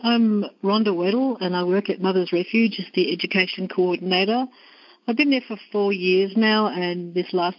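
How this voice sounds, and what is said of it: Australian accent. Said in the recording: “my accent, I'm from Australia”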